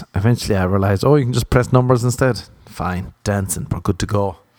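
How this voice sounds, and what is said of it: Strong accent, hard to understand. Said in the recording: “they couldn't understand my accent”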